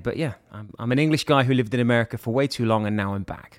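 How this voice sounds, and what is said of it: English accent with American influence. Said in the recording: “sexy accent ... English. Michigan. ... That's the accent you get from Michigan.”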